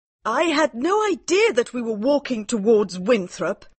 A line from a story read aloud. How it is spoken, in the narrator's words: cried Mary